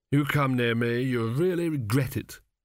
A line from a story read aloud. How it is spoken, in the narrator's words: moaned Chidder, clutching his stomach